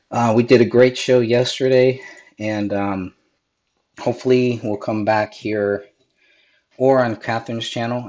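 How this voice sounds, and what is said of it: Raspy voice. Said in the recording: “my voice is a little raspy ... I am still getting over this cold.”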